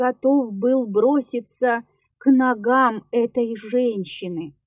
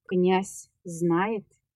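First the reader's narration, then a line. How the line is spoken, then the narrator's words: Plain. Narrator (Russian): спросил я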